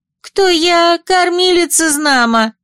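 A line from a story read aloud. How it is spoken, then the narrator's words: Too loud and shrill. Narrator (Russian): заговорила женщина слишком громко и пронзительно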